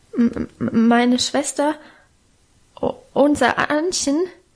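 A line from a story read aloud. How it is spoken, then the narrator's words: Stammering. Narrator (German): stotterte er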